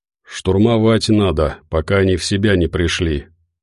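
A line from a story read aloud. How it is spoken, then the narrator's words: Tired reply. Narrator (Russian): устало ответил Константин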